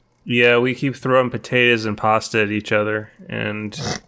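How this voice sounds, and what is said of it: Usual voice. Nothing is said of it.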